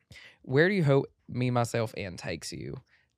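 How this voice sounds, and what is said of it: Put-on male country accent. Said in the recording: “let me read the question in a country accent... That's if I'm speaking like a guy.”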